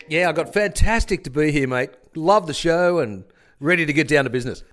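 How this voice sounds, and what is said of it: Imitates another person's voice. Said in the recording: “the word on the street is you're trying to impersonate me.”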